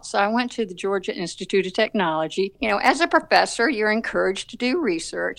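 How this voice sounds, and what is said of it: Southern American accent. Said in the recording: “you can tell from my accent that I'm from the South”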